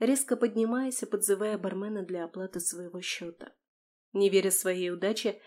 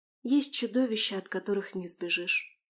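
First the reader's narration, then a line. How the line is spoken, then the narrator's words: Evasive, strained. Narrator (Russian): уклончиво выдавила она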